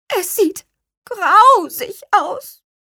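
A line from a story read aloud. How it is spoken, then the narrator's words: Squeaking. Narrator (German): piepste auch Rosenrot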